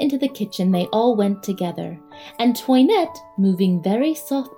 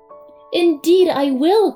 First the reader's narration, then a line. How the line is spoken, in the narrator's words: cried Toinette